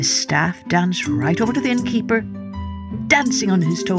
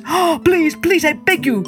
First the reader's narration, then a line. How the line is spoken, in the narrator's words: cried the innkeeper